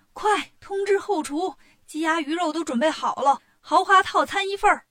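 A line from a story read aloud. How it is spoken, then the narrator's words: Delighted shout. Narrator (Chinese): 大婶乐坏了，一边下楼一边喊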